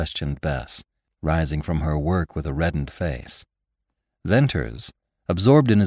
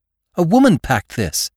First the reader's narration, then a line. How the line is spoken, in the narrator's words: Bess exclaimed